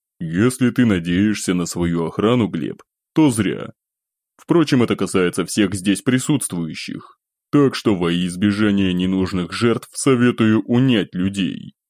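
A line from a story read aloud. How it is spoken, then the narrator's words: Deliberately calm tone. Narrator (Russian): нарочито спокойным тоном заключил черногвардейцев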